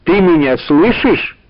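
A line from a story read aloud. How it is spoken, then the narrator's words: Professor's loud question. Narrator (Russian): громко спросил профессор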